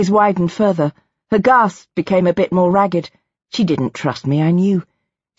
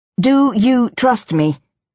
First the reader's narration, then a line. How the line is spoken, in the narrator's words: asked